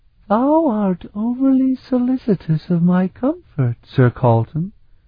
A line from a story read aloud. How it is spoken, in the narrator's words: she gently chided him